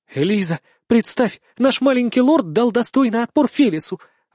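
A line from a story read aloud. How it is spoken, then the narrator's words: Excited exclamation. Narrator (Russian): воскликнула Мия с порога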